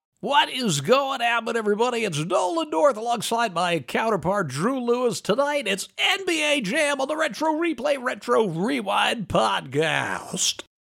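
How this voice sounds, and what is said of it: Sports announcer voice. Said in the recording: “announcer voice? ... Like, that was an announcer. ... i was doing more of like my Marv Albert.”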